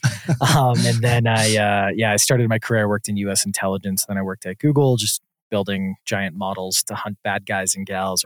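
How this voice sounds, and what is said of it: Wisconsin, Canadian-sounding accent. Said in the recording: “I'm also from Wisconsin, so I have I call it a Southern Canadian accent”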